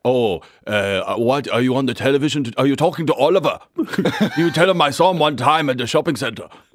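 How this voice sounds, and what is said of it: Imitated German-accented father's voice. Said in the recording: “I have the German accent, which is, I mean, it's not soft ... I have made a living off my dad's accent”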